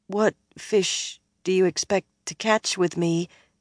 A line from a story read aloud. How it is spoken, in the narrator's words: Min asked in a faint voice